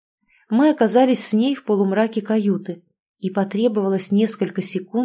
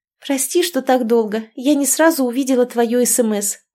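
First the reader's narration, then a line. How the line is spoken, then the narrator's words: Joyful exclamation. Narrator (Russian): радостно воскликнула Лиза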